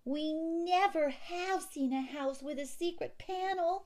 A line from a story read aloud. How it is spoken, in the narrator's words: June Star shrieked